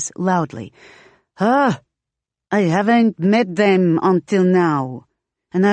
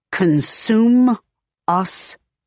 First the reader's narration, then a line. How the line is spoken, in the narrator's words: Manny says, speaking slowly to be sure he understands